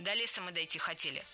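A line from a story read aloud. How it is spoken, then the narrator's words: Sharp answer. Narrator (Russian): резко ответила Лика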